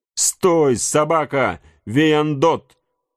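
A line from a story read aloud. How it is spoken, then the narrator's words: Shout. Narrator (Russian): кричал Ункас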